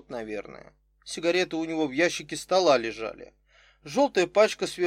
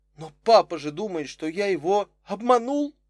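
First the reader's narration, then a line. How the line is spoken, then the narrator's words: Exclamation. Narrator (Russian): воскликнул Витя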